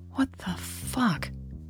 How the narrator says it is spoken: Natalie whispered

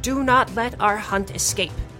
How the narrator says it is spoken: Wipa shouts

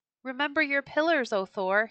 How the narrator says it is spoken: cried

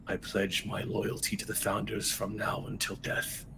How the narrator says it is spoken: you hear him whisper

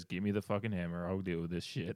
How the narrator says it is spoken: one guy calmly amongst all the rest of it says

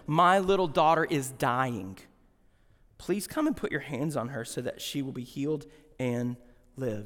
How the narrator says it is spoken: he pleaded earnestly with him

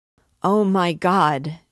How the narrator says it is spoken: she instantly exclaimed, hiding her head upon her knees, and it seemed as if her hoarse voice tore her chest

